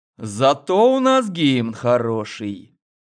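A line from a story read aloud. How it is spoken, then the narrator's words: Mysterious drawl. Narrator (Russian): загадочно протянул главный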